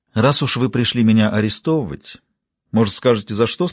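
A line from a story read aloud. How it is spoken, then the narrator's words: Plain. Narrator (Russian): спросила она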